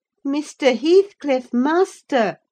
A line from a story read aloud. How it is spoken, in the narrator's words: I cried